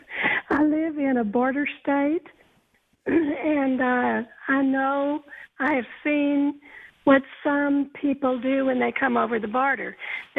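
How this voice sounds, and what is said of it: Strong regional accent. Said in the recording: “has an incredible accent”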